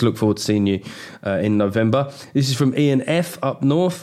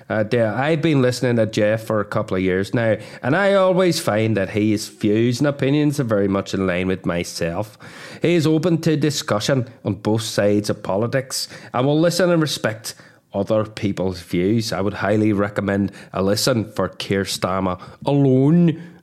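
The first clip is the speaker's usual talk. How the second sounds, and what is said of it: Poor put-on Northern Irish accent. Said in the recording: “That sounds like a Northern Irish name ... Oh my God, that accent went to a bad place.”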